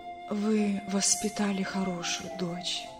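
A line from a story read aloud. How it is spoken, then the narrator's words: Weak, breathless voice. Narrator (Russian): слабым голосом, почти задыхаясь, проговорила Лариса Константиновна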